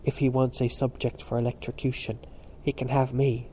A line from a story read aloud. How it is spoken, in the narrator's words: Stephen whispered back with weary humour